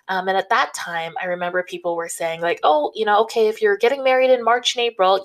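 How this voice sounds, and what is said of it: North American accent. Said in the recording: “North America, which, as you can tell from my accent, is where I'm located”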